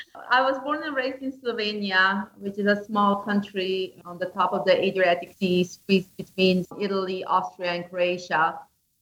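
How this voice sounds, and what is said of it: Slovenian-accented English. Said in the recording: “this is an awful accent”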